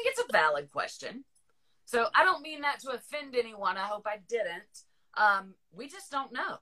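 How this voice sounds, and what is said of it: Usual voice. Nothing is said of it.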